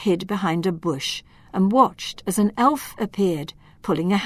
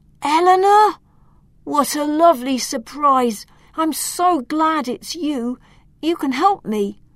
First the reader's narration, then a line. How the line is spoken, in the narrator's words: Loriano ... he called out in a relieved voice